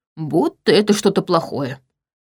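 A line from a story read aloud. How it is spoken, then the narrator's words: Grumbled. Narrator (Russian): пробурчал он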